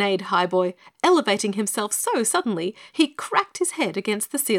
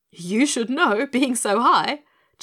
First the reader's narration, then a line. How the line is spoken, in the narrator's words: chuckled the Scarecrow, who could not resist a joke even when he was most serious